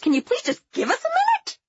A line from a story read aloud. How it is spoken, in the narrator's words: I snapped back